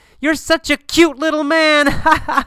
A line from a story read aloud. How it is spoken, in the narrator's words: a tall man laughs, and says